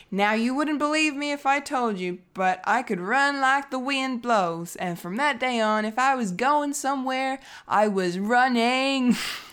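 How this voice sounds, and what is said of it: Forrest Gump impression accent. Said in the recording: “that accent ... Or that impersonation? ... I should put the accent on. So that's from Forrest Gump.”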